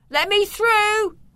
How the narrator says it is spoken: shouted

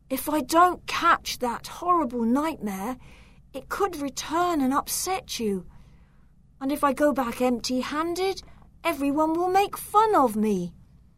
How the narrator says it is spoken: groaned

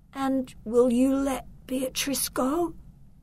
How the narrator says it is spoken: asked Victor in a weak voice

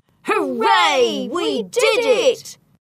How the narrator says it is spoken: Train and Achilles jumped for joy and shouted

